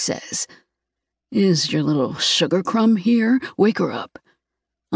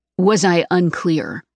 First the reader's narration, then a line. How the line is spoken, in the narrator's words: Declan asks, his tone flat and hard